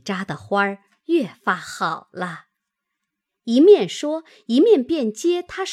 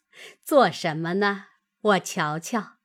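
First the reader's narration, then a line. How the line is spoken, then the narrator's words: Laughing. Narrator (Chinese): 邢夫人笑道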